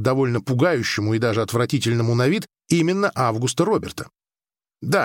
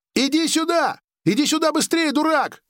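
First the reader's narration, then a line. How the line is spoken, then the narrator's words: Shouting. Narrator (Russian): кричал Август Роберт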